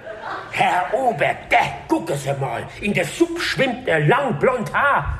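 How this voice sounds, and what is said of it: Speaks in Hessian dialect. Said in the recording (German): “Hättest du mal noch was anderes auf hessisch?”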